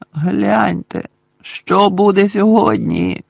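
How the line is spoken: Groaning. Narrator (Ukrainian): простогнав Рон

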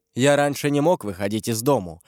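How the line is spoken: Plain. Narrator (Russian): ответил Ламоль

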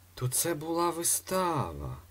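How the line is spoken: Unsteady voice with bravado. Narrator (Ukrainian): Непевним голосом, але злегка бравуючи, промовив Фандорін

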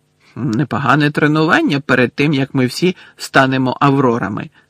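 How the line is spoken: Excited exclamation. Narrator (Ukrainian): захоплено вигукнув Рон

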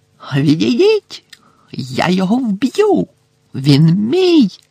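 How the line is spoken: Shriek. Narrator (Ukrainian): заверещав Волдеморт

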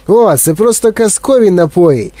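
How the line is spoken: Shouted. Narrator (Ukrainian): крикнув містер Вонка

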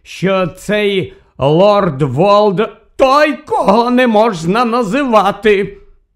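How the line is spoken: Angry, hysterical interruption. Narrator (Ukrainian): Сердито і якось істерично перебив його Фадж

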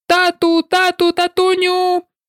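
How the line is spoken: Shrieked. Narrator (Ukrainian): заверещав

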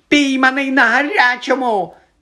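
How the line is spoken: Frightened shriek. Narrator (Ukrainian): заверещав поблідлий Ерні

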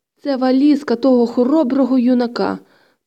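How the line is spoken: Moaning. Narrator (Ukrainian): простогнав

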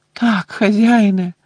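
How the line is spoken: Moaned. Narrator (Ukrainian): простогнав Червохвіст

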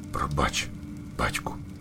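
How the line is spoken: Small owlet whispering. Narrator (Ukrainian): прошепотів малий пугач

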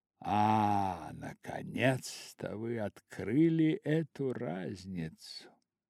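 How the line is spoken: Muttered. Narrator (Russian): пробормотал лорд Генри

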